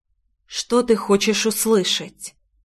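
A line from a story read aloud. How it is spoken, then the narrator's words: Soft whisper. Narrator (Russian): Прозвучал тихий шепот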